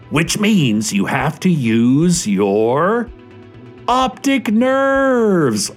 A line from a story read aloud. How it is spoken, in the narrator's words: all the children shouted